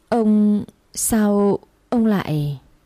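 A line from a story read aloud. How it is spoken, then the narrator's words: Terrified stammering. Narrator (Vietnamese): bà Thiết kinh hãi, miệng lắp bắp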